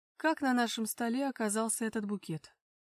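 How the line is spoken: Cold question. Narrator (Russian): холодно поинтересовался у него Макар

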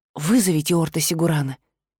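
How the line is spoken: Quick whisper. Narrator (Russian): быстро шепнула

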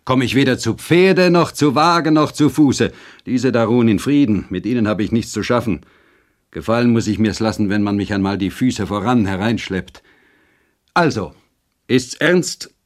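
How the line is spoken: Rider calling out. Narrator (German): rief der Reiter

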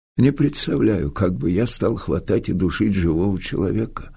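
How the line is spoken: Thoughtful mutter. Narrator (Russian): задумчиво пробормотал Николай Христофорович

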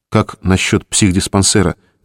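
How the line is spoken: Quiet question. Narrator (Russian): тихо спросил Саша

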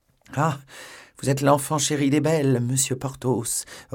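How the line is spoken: Sighing. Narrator (French): reprit en soupirant la procureuse

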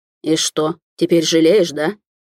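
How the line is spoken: Growling. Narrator (Russian): Уже рычал некогда бывший спокойный Летунов

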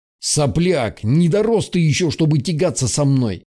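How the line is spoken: Growled. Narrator (Russian): прорычал тот

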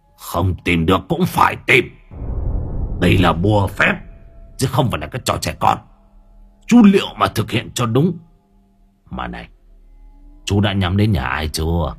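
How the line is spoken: Harsh stern voice. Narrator (Vietnamese): Lão Phạn gằn giọng

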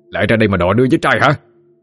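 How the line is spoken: Angry shout. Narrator (Vietnamese): Lân quát lên

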